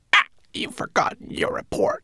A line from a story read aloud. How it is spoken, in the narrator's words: croaked